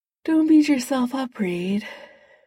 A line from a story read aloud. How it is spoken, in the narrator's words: Tony muffled a yawn